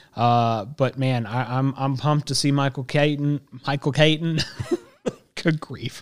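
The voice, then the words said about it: Country accent. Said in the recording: “my country accent kicks in”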